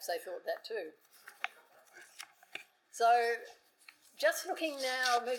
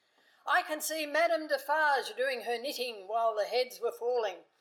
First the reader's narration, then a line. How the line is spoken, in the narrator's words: Thomas of Gordon's Hotel, shouting at the picketers